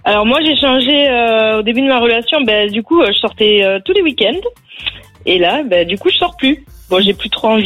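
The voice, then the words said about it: Southern French accent, Haute-Garonne. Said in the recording (French): “je mets un billet sur la Haute-Garonne ... t'as l'accent”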